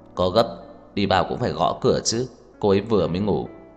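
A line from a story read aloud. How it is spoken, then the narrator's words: Cold. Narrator (Vietnamese): Tưởng Thiên Lỗi lạnh lùng nói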